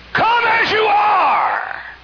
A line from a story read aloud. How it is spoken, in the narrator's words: exasperation, somebody hollered